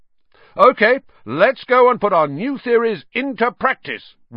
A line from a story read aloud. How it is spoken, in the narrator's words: Wood shouted